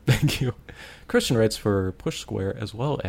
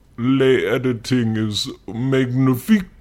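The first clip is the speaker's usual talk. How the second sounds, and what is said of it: David Cage impression, French accent. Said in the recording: “Good David Cage impression.”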